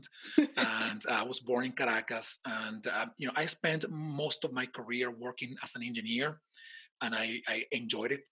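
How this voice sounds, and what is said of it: Venezuelan Spanish accent. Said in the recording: “I'm from Venezuela, in case somebody didn't notice my accent.”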